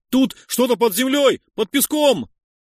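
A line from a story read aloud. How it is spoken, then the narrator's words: Prisoner shouting. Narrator (Russian): выкрикнул другой заключенный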